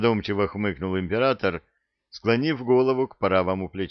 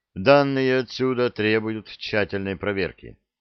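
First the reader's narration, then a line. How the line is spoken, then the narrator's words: Sighing. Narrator (Russian): вздохнул его величество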